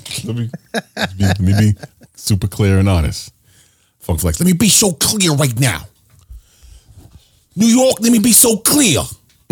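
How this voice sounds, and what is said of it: Imitates another person's voice. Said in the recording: “that's my flex impression.”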